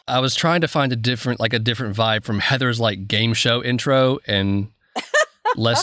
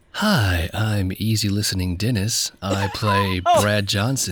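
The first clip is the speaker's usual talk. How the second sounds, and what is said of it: Soft, smooth late-night radio voice. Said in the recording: “Getting into that ASMR mood ... Making fun of my NPR voice ... sounded more like the radio hosts who do the like after hours relationship call shows at 10 p.m.”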